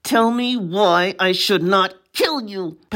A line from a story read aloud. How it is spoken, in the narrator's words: asked through her teeth